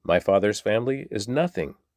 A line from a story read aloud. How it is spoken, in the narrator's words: David exclaimed